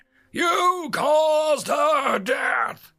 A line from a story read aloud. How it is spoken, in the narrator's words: Victor roared